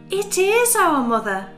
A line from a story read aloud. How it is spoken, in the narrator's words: cried the little kids